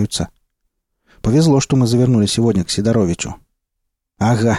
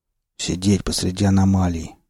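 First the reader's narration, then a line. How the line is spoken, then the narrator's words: Gloomy suggestion. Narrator (Russian): мрачно предложил Молчун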